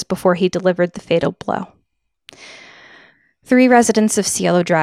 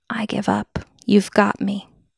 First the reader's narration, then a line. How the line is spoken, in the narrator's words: she had whispered to him